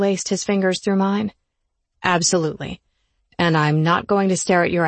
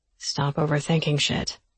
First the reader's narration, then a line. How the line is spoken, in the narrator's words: Ford whispered in my ear